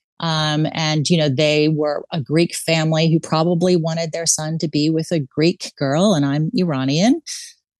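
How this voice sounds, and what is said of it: American accent. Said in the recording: “as you can probably hear from my accent, I'm from the U.S.”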